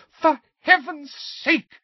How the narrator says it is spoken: screamed Mrs

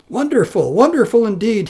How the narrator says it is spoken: he exclaimed out of joy

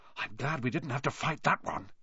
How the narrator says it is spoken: Harry whispered

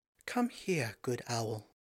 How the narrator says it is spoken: she called in a sweet, pervasive voice

